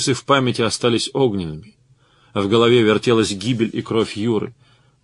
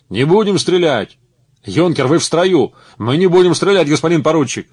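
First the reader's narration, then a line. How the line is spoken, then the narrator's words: Shouts from many voices. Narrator (Russian): закричали с разных сторон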